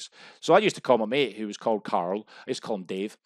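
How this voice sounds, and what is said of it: Scottish accent. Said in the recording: “With a Scottish accent”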